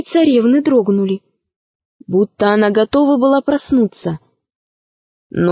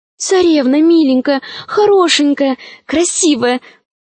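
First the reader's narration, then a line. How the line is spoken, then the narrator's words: Pleading. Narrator (Russian): взмолилась Алиса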